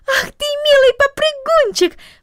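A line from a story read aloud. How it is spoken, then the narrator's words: Affectionate exclamation. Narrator (Russian): воскликнула она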